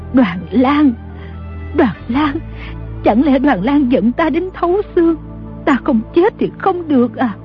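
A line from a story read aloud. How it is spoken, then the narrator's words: Trembling old woman. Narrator (Vietnamese): Bà run rẩy nói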